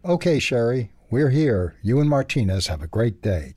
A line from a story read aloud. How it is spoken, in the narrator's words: Chad said